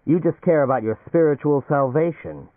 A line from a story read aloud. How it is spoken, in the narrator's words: he said savagely